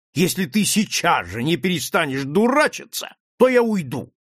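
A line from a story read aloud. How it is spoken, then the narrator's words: Sharp shout in face. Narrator (Russian): Ян Улеслагерс резко крикнул ему прямо в лицо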